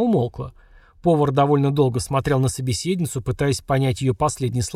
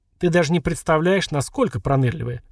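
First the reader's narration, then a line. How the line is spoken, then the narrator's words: Short chuckle. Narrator (Russian): хохотнул Веркит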